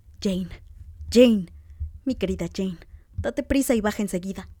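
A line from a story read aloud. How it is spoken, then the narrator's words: Exclaiming. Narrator (Spanish): exclamó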